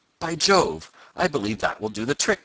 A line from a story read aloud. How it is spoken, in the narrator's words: cried Tom